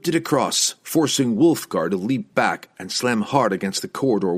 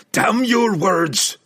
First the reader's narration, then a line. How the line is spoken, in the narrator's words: howled Brunner